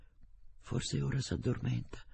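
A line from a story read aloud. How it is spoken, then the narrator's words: Tired mother whispering. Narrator (Italian): bisbigliò la povera mamma, tanto stanca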